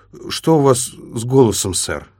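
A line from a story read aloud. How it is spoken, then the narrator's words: Forced out. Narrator (Russian): наконец выдавил он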